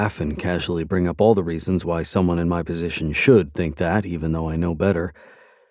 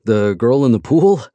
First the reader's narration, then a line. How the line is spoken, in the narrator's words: Asa laughs